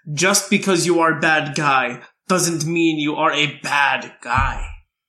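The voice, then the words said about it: Bad Zangief impression. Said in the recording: “That's my bad impression of it”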